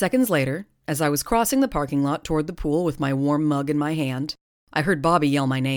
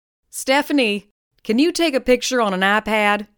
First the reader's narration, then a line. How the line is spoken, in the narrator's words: shouted Bobby